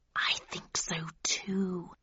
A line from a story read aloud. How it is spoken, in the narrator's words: he hissed